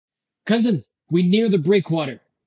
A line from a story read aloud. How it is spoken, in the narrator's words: Byoki shouted